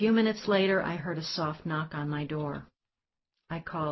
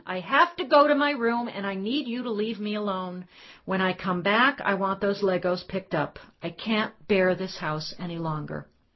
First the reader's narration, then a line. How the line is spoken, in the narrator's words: I fled upstairs, screaming to Cameron